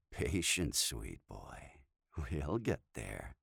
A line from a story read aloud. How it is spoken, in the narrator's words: his Dom replied with a sultry laugh